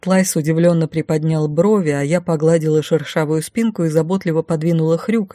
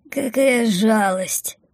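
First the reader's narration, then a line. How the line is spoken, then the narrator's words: Drowsy semiconscious mumble. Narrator (Russian): в забытие пробормотала Бумба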